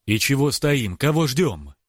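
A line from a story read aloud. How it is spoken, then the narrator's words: Irritated, spat out. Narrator (Russian): Раздраженно выплевываю я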